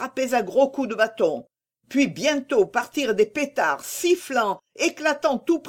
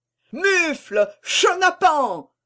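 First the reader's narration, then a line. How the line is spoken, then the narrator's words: Roaring old man. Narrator (French): rugissait le bonhomme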